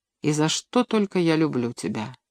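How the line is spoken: Tender whisper. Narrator (Russian): прошептала она

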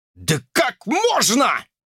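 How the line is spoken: Shouting. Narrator (Russian): закричал Джордж

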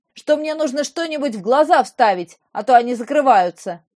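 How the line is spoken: Loud answer. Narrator (Russian): громко ответила Раиса

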